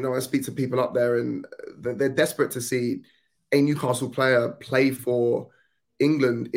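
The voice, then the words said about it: Strong Southern English accent. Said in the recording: “I've got a super Southern accent”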